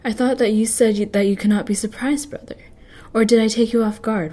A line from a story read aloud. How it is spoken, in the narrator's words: replied Whiskey Jack, chuckling as he did